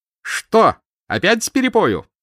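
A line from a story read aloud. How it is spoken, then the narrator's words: Cheerful yelling. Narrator (Russian): жизнерадостно заорал Марковин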